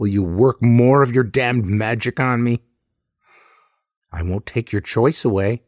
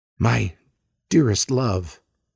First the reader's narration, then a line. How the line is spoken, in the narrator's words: I whisper